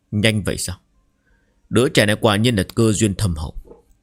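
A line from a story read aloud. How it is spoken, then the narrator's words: Soft, quiet. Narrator (Vietnamese): Lão ông khẽ nói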